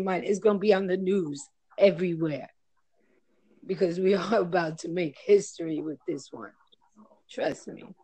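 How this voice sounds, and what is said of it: Heavy New York accent. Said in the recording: “I'm in New York. ... As if you couldn't tell, right? ... The accent. ... you have a really heavy accent.”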